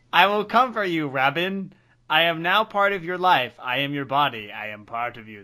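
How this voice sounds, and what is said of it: Demonic character voice. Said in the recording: “That's my demon voice. That's my demon voice.”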